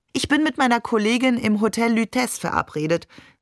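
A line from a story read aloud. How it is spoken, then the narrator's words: Plain. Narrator (German): sagte sie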